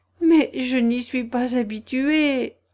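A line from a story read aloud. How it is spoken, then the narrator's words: Pitiful retort. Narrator (French): répliqua Alice d'un ton piteux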